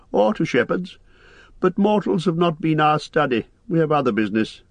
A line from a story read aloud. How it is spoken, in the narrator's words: laughed Lindir